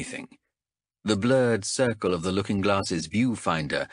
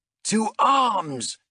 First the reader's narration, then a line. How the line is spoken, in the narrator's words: He shouted